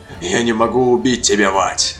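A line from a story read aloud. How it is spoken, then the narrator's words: Barking demon. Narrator (Russian): рявкнул демон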